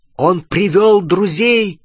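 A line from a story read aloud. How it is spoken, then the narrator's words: Shout to others. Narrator (Russian): крикнул остальным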